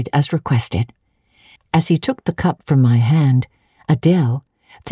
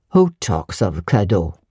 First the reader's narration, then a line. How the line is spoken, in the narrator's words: said he gruffly